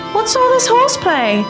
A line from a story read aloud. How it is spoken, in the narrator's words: she called out to him cheerfully